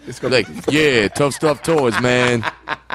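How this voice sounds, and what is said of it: Imitates another person's deep voice. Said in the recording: “how deep my voice was ... Good impression?”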